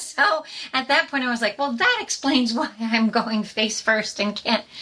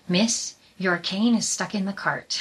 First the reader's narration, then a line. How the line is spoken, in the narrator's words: the bus driver very calmly said